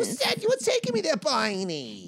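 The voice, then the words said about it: Baby voice with vocal fry. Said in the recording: “Like a mix of baby voice and vocal fry ... smoking and an accent”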